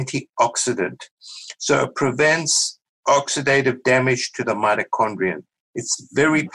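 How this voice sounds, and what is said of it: Usual voice. Nothing is said of it.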